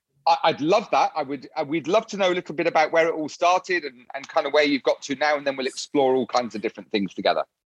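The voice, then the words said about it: British English accent. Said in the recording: “someone with a lovely British accent”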